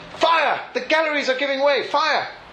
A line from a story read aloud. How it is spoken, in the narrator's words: several malicious individuals shouted